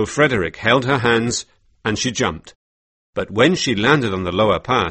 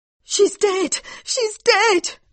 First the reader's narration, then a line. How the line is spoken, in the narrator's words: cried Mary